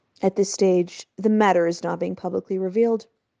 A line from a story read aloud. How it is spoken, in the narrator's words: told coldly